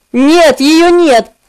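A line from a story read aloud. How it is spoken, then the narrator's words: Plain. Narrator (Russian): ответил я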